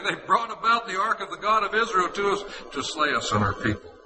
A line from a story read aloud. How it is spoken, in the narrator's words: the Ekronites cried out, saying